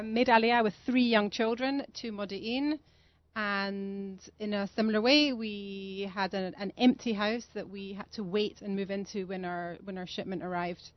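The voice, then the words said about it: Scottish accent. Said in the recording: “Although I'm not from London, as you can hear, I'm from Scotland.”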